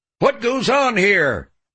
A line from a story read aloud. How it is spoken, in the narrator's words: he yelled